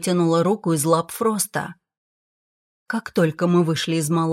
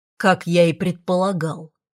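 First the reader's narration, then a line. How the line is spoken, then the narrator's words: Dragon growling. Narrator (Russian): прорычал дракон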